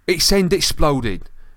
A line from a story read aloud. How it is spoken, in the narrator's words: said Dean angrily